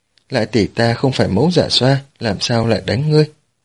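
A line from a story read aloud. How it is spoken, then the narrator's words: Laughing. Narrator (Vietnamese): Bạch Tiểu Lại bật cười nói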